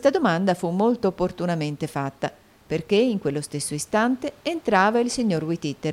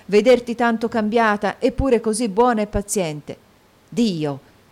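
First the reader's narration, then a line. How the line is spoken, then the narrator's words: Exclamation, sudden tone change. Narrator (Italian): esclamò Nicola a un tratto mutando di tono e di modi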